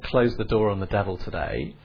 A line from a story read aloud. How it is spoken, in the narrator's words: it says